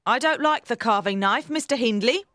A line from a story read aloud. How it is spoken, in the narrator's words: said